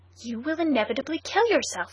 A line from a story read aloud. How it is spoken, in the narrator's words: he cried